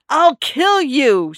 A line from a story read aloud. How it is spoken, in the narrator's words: she screamed